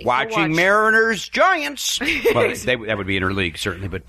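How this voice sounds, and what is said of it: Imitates another person's voice. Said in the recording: “That's my Brody Stevens impression, by the way. ... And it's a good one, too.”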